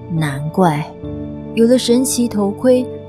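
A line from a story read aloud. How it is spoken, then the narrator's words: Amazed, eager agreement. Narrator (Chinese): 惊叹不已的欧里斯点头如捣蒜地说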